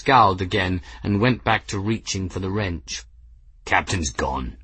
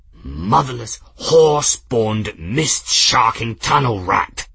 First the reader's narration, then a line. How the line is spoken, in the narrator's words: Journeyman snarled